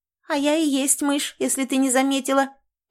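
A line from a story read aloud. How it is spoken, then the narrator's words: Hurried squeak. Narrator (Russian): только и успела пискнуть она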